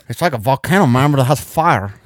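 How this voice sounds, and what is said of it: Put-on Guatemalan accent. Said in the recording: “I don't know what accent I'm creating. I don't know. That's Guatemalan. ... That's Guatemalan accent. ... But that's like Southern Guatemalan.”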